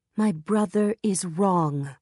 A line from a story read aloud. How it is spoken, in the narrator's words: Judy Chan said, her voice stronger than it had been a moment ago